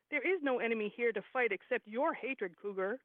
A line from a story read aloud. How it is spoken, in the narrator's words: Dog answered